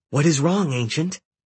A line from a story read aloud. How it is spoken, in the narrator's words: Hecate asked anxiously